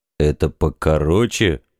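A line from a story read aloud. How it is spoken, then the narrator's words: Gruff grumble. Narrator (Russian): буркнул каблан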